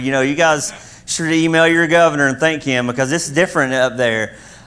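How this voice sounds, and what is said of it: Kentucky accent. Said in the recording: “She's in Kentucky, where I'm from. That's where the accent's from”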